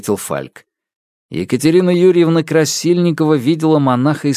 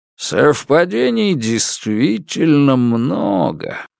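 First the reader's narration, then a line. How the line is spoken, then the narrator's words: Skeptical drawl. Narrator (Russian): протянул Сидоров со скептическим видом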